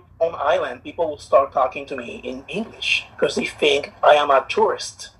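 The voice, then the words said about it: Puerto Rican accent. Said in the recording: “If you not hear the accent, a beautiful Puerto Rican chocolate man”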